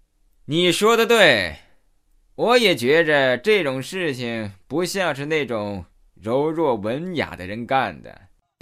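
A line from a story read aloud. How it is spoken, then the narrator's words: Flippant drawl. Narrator (Chinese): 那个小混混玩世不恭，斜眉掉眼的 拖长声音说道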